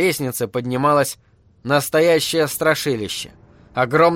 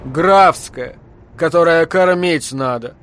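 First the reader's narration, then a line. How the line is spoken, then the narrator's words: Deep bass, big woman. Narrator (Russian): пробасила бабища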